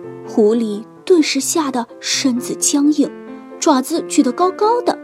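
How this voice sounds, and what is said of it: Usual voice. Nothing is said of it.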